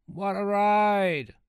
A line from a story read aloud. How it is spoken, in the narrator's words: he called out